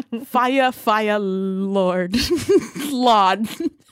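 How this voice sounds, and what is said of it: Attempted country accent. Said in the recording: “Anything in a country accent? ... It sounds horrible.”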